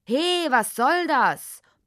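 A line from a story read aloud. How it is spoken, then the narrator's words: Roaring, half asleep. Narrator (German): brüllte Grunzkopf in das Dickicht hinein, obwohl er eigentlich noch halb träumte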